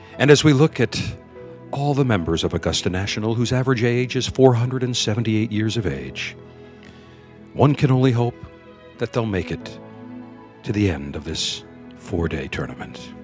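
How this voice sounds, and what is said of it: Hushed golf-announcer voice. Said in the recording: “as I talk in this hushed voice for the next 4 days”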